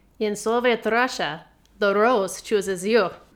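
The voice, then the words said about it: Put-on Russian accent. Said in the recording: “does really good accents. She can do pretty much any accent.”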